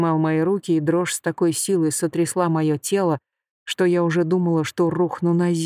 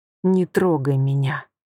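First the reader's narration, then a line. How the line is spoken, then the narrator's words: Through gritted teeth. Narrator (Russian): процедила я сквозь зубы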